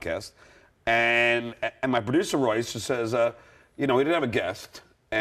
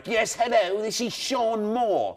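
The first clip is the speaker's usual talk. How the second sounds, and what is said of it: Bad fake British accent. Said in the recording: “the worst British accent in the world”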